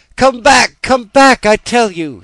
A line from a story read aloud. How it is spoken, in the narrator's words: he cried